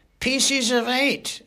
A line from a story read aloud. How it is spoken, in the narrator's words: yelled the startled parrot